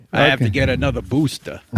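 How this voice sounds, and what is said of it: Mock Brooklyn New York accent. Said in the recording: “Are you mocking Fauci's accent? ... He's from Brooklyn, New York.”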